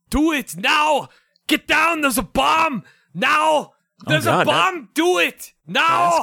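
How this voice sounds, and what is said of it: Arnold Schwarzenegger impression. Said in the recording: “That Arnold impression took a lot out of me.”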